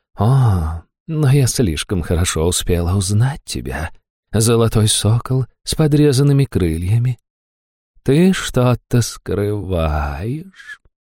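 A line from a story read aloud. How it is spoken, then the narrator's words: Purring. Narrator (Russian): промурлыкала суккуб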